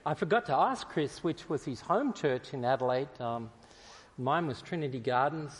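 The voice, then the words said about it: Australian accent. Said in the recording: “understanding my accent as I speak”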